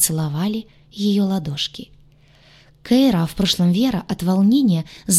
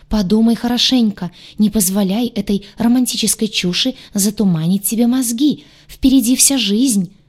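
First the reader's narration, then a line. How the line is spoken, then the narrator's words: Loud wail. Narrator (Russian): завопил Гадюша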